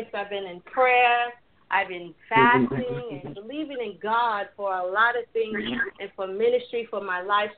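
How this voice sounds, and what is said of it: Excited, energetic voice. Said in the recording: “tonight, I'm excited. You can hear it in my voice.”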